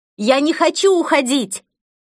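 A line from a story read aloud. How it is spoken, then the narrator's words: Exhausted desperate scream. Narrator (Russian): Из последних сил я закричала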